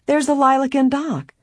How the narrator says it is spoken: Helen cried

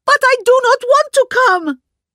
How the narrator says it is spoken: screamed Mitzi

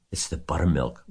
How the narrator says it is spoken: whispered Mrs

